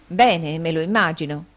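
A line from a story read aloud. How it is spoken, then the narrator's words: Exclaiming. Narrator (Italian): esclamò la signorina Price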